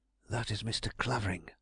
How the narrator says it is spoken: I whispered, with all the self-possession I could muster

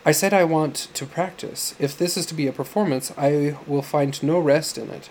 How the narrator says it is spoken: Sam answered haughtily

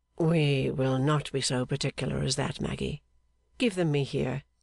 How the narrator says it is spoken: said Clennam in a low voice

